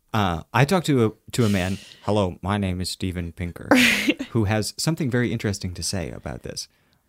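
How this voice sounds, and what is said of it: Imitates a radio show's narration style. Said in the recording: “That was a very good Radiolab impression.”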